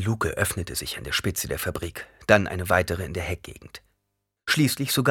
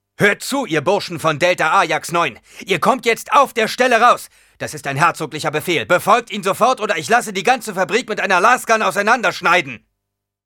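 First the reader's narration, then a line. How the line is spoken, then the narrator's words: Shouting. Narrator (German): schrie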